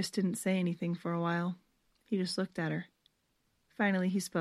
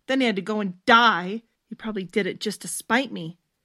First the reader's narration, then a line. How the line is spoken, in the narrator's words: Stephanie roughly wiped tears out of her eyes and said angrily